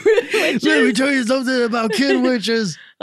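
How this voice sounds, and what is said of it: Wrestling promo style voice. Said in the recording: “that impression like you were doing a promo”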